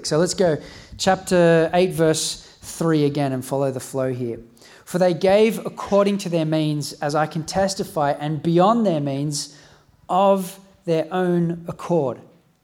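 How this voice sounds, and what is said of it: Strained, fading voice from illness. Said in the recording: “I'm losing my voice. Been a bit sick this week.”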